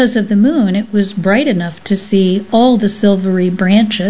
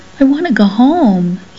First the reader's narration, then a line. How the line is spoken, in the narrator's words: he begged